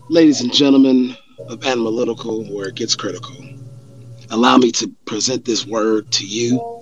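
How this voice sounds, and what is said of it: Raspy voice. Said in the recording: “My voice is kind of, you know, raspy.”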